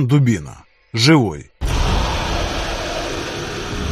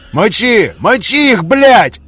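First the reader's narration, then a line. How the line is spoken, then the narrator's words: Uncontrolled yelling. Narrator (Russian): Орал я, не в силах сдерживаться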